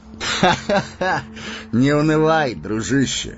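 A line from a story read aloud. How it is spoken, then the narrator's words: Hearty laughter. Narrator (Russian): рассмеялся Арагорн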